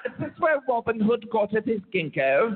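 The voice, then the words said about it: Bad put-on British accent. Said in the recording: “Worst British accent.”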